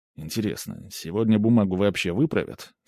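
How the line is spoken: Muttered aloud. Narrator (Russian): вслух пробормотал я

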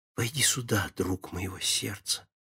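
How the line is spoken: Soft familiar voice. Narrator (Russian): хорошо знакомый голос, тихо говоривший

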